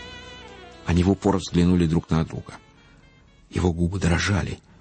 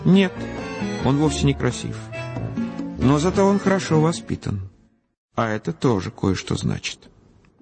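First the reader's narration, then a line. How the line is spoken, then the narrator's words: Very calm. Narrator (Russian): Она ответила очень спокойно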